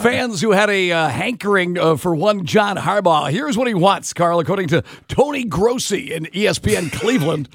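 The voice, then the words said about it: Sports announcer voice like Kent Brockmeyer. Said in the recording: “I can always do pukey announcer voice ... Sound like Kent Brockmeyer”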